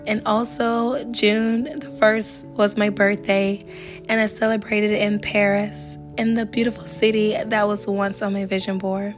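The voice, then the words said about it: Slightly raspy voice. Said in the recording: “my voice is a little raspy. I had a head cold”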